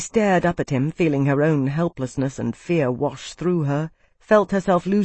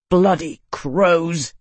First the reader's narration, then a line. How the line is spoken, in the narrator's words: he snarled